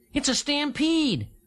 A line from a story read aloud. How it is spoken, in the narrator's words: Dragonfly cried